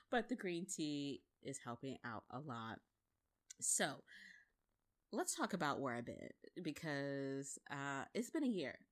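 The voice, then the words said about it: Slightly scratchy voice. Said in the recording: “I've been a little bit under the weather ... excuse me if my voice is a little scratchy right now”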